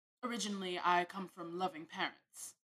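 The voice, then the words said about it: Put-on British accent. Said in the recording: “That's my best impression of somebody from the UK.”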